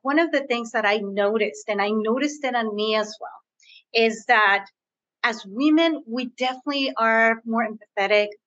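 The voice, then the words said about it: Spanish-influenced bilingual English accent. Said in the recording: “As you can hear from my accent, I am bilingual. I speak Spanish. I was born in between the borders.”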